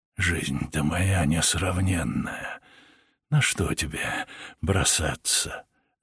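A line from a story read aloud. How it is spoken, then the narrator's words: Cheeky whisper. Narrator (Russian): развязно прошептал Сергей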